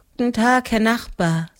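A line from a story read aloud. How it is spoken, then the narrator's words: Tired. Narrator (German): sagte müde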